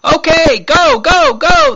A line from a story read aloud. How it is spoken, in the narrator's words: the captain screamed